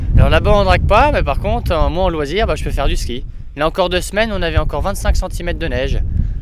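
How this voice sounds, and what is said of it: Regional Vosges French accent. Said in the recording (French): “Ça me fait bizarre d'entendre votre accent parce que comme je suis parti de Strasbourg le 19 mars, j'ai traversé les Vosges”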